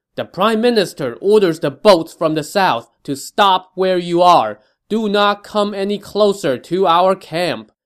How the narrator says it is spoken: Wen Pin yelled

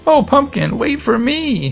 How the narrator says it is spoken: he cried

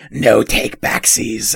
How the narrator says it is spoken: it hisses out

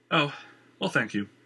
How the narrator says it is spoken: Christian sighed, a little disappointed

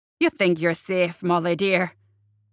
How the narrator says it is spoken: Seamus growled

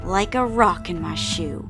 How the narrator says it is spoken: said through gritted teeth

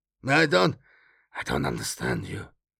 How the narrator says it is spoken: he muttered

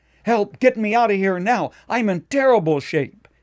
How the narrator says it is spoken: he cried out

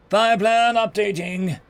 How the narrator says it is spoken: Guns called out

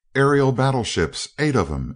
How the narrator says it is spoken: exclaimed Seaton

